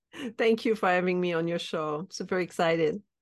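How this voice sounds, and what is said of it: French Canadian accent. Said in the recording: “She's French Canadian. So enjoy this beautiful French accent.”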